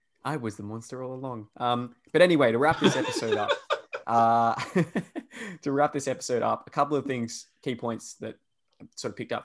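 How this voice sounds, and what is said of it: Australian Perth accent. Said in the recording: “Insulting my country... that's how we all sound here... my accent has been derided... I think it's a bit of a dumb accent... listening to Perth people talk on the intercom, I'm like, oh, I sound like that”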